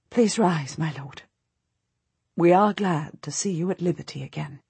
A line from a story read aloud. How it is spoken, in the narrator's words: she very quietly says